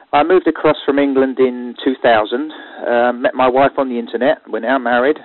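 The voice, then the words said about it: English accent. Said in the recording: “It's an English accent in case some Americans do get it muddled up with Australian.”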